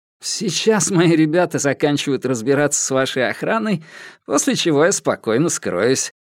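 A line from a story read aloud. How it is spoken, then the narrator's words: Laughing reply. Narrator (Russian): рассмеялся в ответ Соломон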